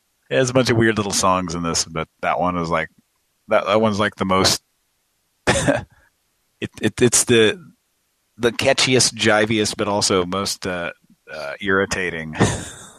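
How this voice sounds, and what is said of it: Hoarse, fading voice. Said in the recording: “I'm losing my voice here, so probably getting really hard to listen to.”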